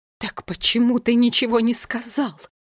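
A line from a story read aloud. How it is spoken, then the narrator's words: Hissing queen. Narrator (Russian): зашипела на него королева Кникс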